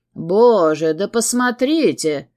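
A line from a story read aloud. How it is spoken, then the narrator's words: Delighted male exclamation. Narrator (Russian): в восторге воскликнул ведущий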